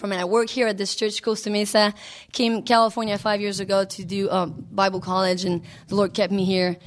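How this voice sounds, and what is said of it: French-Canadian accent. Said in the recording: “why is she talking so weird? ... I know I have one. But yeah, it's French-Canadian”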